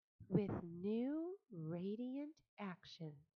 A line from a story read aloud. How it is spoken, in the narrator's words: repeated Charlotte slowly